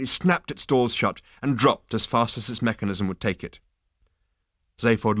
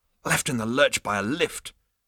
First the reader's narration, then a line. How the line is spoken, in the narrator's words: muttered Zaphod, who was feeling at his least jaunty